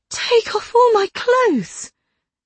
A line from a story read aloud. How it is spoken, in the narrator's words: I cried